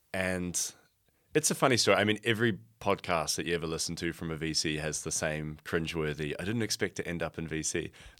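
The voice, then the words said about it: New Zealand accent. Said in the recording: “I'm from New Zealand originally, as you can probably hear in my accent.”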